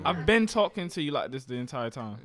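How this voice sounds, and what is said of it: Speaks in a put-on accent. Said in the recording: “Accent? ... I'm not speaking in the accent. ... you lose that accent”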